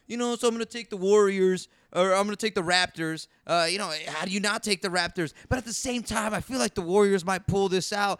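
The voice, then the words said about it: Imitates another person's voice. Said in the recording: “when you were doing an impression of me, like you, that was good... You sounded smarter.”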